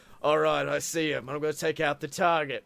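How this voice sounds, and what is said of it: Deep manly British accent. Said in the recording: “he's got like this real deep, manly British accent”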